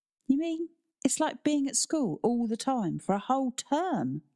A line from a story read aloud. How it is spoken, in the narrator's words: Tristan exclaimed